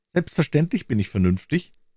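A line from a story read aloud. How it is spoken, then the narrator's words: Mocking imitation. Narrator (German): erwiderte sie etwas spöttisch und ahmte seine Stimme nach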